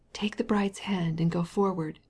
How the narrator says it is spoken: whispered his best man to him

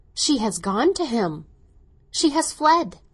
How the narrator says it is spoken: Lavinia cried, with admiration and envy

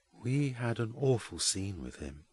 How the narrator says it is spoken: says Jasper in a low voice

